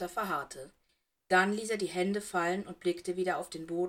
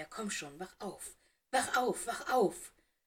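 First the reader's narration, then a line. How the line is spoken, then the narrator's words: Murmured. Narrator (German): murmelte er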